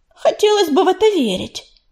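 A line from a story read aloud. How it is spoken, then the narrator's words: Snapping retort. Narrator (Russian): огрызнулась Белочка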